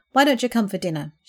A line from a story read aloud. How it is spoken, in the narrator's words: suggested flatly